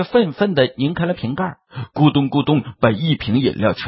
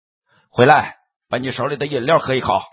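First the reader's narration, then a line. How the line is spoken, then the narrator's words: Station worker's anger. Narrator (Chinese): 车站工作人员怒了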